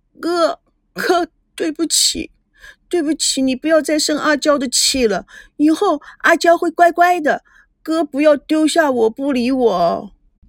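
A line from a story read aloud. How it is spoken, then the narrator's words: Crying. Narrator (Chinese): 他哭着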